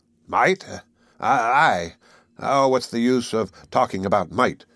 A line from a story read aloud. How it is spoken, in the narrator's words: growled, hastening out